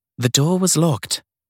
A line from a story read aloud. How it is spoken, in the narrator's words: said Sadie, keeping her voice calm